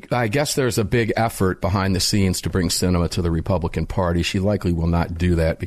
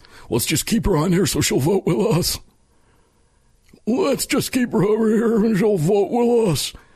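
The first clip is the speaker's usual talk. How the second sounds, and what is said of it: Impression of an elderly politician. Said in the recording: “That's a 100-year-old politician, by the way, impersonation”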